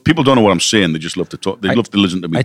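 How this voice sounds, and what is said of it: British Geordie (Newcastle) accent. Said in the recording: “A British accent. ... has got the Newcastle accent. ... So the Geordie accent.”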